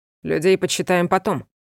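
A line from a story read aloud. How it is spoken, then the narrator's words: Cold. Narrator (Russian): холодно произнес он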